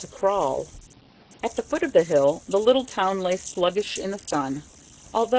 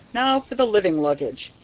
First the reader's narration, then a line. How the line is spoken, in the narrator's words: he said with a wink